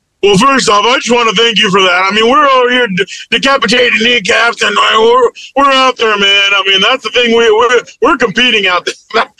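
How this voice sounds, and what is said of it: Imitates another person's voice. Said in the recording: “best in Dan Campbell impersonation”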